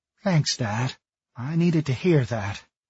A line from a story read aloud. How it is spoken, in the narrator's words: muttered